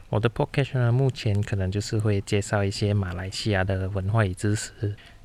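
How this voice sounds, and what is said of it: Slight Malaysian Mandarin accent. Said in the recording (Chinese): “我是马来西亚人嘛，所以呢，讲话难免会有一点点的口音。”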